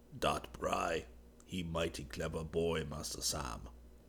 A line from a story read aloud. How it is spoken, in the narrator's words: Nux was chuckling gleefully and whispered